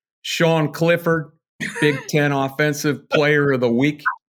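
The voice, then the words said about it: Imitates another person's voice. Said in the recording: “I've got an impersonation. ... he's pretty good at James Franklin because he's got a very distinct way of saying some words”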